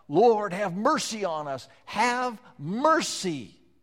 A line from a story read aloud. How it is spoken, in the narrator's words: yell out